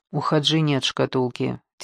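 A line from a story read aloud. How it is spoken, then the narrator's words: Quiet. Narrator (Russian): тихо произнес Яни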